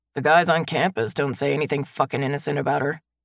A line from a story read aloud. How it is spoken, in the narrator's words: my brother grumbles